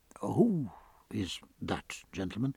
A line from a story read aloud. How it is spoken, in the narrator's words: asked Stephen in a low voice